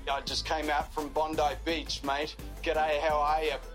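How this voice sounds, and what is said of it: Put-on Australian accent. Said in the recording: “I can also do accents. I can do Australian.”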